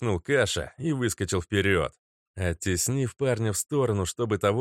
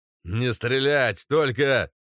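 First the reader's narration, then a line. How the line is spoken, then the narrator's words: Shout drowned by gunfire. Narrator (Russian): закричал 13-й, но его голос потонул в грохоте выстрелов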